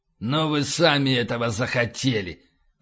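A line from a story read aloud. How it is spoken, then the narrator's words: Hissing. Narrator (Russian): прошипел утконос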